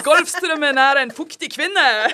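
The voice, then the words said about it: Switches to a different Norwegian dialect. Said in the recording (Norwegian): “skifter til og med dialekt”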